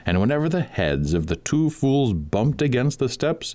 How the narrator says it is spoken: he cried

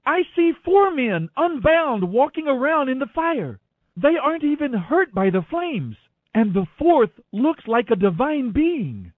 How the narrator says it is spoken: Nebuchadnezzar shouted

